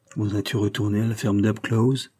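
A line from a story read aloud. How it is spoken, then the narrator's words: Sad question. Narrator (French): demanda tristement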